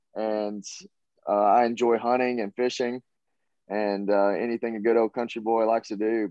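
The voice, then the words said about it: Southern US accent. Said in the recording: “I have kind of Southern in my accent”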